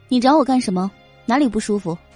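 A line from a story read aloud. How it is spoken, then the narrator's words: Cold, aloof voice. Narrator (Chinese): 叶朵朵站住，声音清冷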